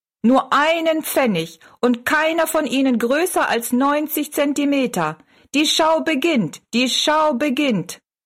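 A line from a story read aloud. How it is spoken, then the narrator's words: Called out. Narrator (German): rief er Rosalie zu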